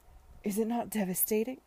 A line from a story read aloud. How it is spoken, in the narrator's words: he said desperately